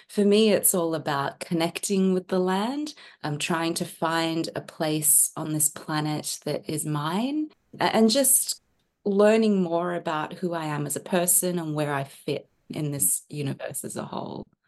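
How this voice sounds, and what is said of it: Australian accent. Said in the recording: “You're obviously from Australia from your accent.”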